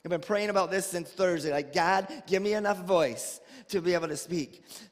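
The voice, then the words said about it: Weak, strained voice. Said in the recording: “my voice is not very strong this morning”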